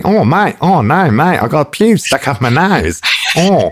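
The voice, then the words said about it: Put-on Australian accent. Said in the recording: “that's how you do an Australian ... So that gets you a decent Australian accent.”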